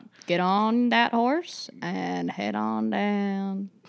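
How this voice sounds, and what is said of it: Put-on Southern accent. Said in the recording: “it's a Southern accent thing now”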